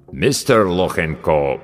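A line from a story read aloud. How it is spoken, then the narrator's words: Deep bass, mangled name. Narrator (Russian): пробасил авербанкаща, как обычно безбожно коверкая фамилию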